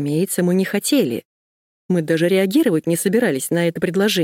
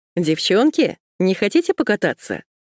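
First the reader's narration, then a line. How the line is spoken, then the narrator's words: Cheerful question. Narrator (Russian): кто-то весело спросил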